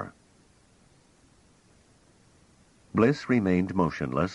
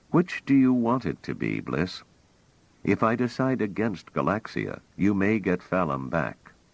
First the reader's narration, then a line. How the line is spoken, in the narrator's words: Trevise said calmly